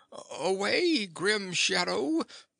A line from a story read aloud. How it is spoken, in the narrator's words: he cried